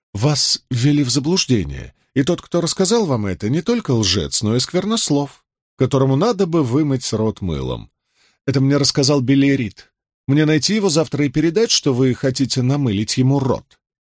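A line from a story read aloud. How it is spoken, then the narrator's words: Calm. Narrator (Russian): Он … спокойно сказал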